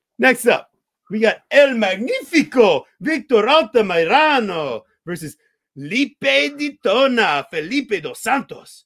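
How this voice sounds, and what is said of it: Put-on Mexican accent on names. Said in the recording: “I get to break out all my Mexican accents for this ... You're pretty good at it, I gotta say.”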